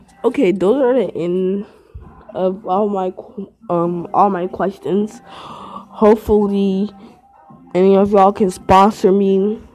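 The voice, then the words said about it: Congested, stuffy voice. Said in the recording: “I have a cold.”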